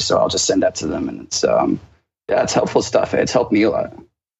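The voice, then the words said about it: Partly American-sounding accent. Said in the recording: “I spent about 10 years in America as well, hence the accent.”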